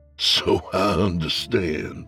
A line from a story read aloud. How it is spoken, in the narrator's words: Fant chuckled